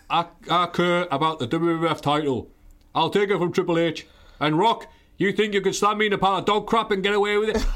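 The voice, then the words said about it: British Bulldog impression, British cadence. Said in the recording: “I can't do the accent very well, but I can get the cadence ... as the British Bulldog”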